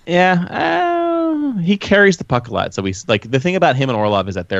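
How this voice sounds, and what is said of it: Usual voice. Nothing is said of it.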